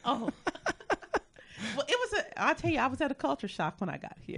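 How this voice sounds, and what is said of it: Southern twang, Texas accent. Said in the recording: “people still have the southern twang right here ... yes, that's me ... you're from Dallas, Texas. You can claim it.”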